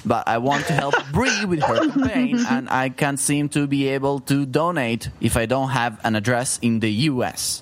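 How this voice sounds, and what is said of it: Non-American foreign accent. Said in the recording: “I am not a citizen of the United States of America, as you might have guessed from my accent.”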